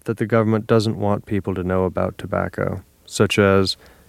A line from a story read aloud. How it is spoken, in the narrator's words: Nick sighed